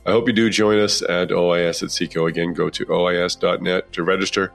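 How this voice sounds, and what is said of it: Slightly congested voice from a cold. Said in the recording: “excuse my voice. I've got a little bit of a cold,”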